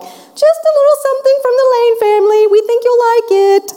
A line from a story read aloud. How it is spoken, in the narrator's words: I yelled back